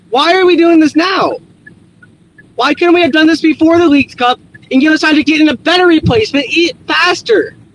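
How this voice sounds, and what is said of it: Angry yelling rant. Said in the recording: “Sorry if I'm yelling.”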